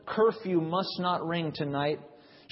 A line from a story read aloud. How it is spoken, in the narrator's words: One low murmur, faintly spoken